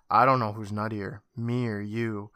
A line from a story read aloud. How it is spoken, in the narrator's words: Julie stops and sighs and says